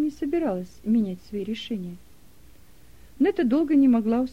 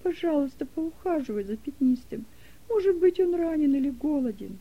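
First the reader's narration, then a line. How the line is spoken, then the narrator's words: Sobbing plea. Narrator (Russian): умоляла Делека, всхлипывая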